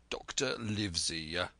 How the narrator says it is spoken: he said

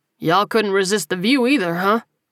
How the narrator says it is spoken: he asked, chuckling

